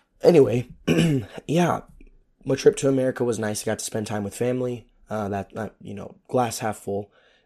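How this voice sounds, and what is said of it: Hoarse, strained, losing voice. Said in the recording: “my voice is gone ... so that's why I'm losing my voice.”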